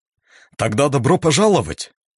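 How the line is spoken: Amused, calming down. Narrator (Russian): весело засмеялся, чуть поуспокоившись, продолжил

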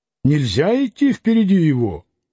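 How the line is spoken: Loud stately man. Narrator (Russian): громко спросил осанистый человек

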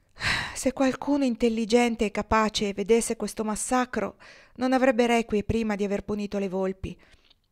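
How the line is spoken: Ram sighing. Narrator (Italian): il montone sospirò e disse

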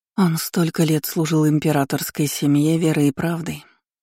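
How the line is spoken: Sighed. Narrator (Russian): вздохнула она

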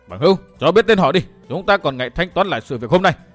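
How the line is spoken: Loud shout. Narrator (Vietnamese): Hắn cao giọng thét

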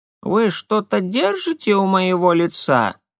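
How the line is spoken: Creaky old woman's voice. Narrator (Russian): Скрипучим голосом спросила пожилая женщина

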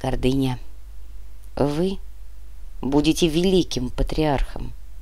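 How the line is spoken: Quiet. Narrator (Russian): так же тихо произнес Сухоруков

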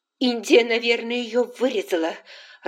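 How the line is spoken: Irritated thought. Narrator (Russian): раздраженно подумала Скарлетт

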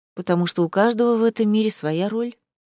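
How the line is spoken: Sighing. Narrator (Russian): Женевьева вздохнула

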